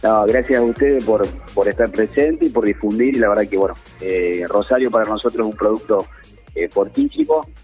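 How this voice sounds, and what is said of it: Córdoba Argentine Spanish accent. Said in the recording (Spanish): “escuchar la tonada cordobesa”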